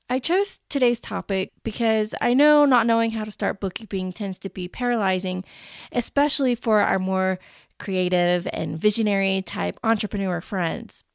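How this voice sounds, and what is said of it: Scratchy, raspy voice. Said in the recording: “I may sound a little different to you on this episode. I have been fighting the worst cold in the history of all colds, and it's given me a terrible sore throat ... my voice is a little bit scratchy and raspy,”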